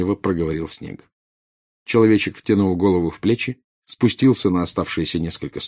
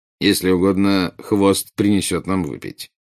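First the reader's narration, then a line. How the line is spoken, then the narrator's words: Plain. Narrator (Russian): сказал Снег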